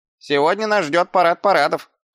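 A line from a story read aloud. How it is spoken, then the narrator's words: Smirking snort. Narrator (Russian): хмыкнул Шнопс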